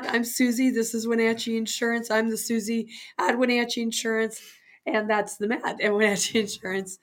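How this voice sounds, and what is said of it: Raspy, unclear voice. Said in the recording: “my voice isn't very clear and bell-like today ... you've got that kind of raspy voice going on ... A little laryngitis”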